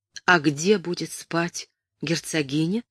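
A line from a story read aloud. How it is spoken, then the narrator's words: Barely audible question. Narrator (Russian): спросила Кэтрин чуть слышно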